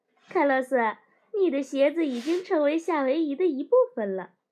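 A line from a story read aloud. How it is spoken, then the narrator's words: Laughing. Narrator (Chinese): 我笑着说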